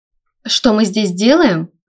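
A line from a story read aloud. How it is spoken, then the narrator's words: Laughing. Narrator (Russian): рассмеялась Сима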